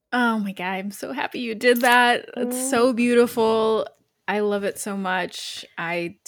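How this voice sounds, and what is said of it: Choked up, emotional voice. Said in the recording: “I'm a little choked up.”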